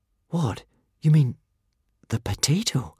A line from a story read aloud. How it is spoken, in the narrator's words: gasped Hiccup